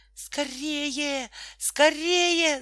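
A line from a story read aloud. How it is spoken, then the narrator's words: Shouting. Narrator (Russian): закричала Тома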